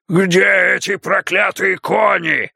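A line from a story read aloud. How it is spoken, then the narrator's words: Yelling. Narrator (Russian): орал Грунф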